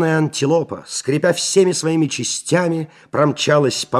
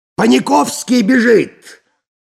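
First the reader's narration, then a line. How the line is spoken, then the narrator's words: Shouting. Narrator (Russian): закричал Балаганов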